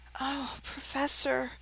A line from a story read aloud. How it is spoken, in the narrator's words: Harry groaned